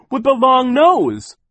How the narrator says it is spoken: cried

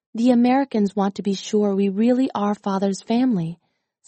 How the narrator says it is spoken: said Jin

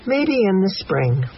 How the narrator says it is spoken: sigh

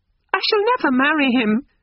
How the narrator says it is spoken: quavered Lucy

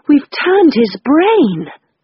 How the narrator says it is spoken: I moaned

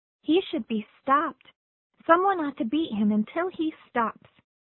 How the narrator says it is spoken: she cried

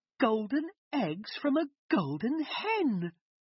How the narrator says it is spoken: cried Jack's mother

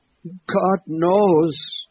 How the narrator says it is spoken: exclaimed at his wit's end

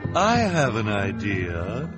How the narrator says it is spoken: Esme said suddenly in a false, sweet voice

